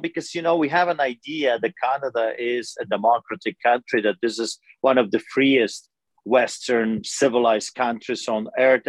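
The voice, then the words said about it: Eastern European immigrant accent. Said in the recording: “as you can tell by my accent, I emigrated here. My parents took us from behind the Iron Curtain”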